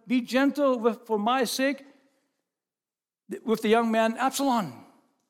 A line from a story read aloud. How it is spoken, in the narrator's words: David shouted to them